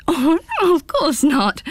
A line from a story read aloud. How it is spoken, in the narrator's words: giggled Pins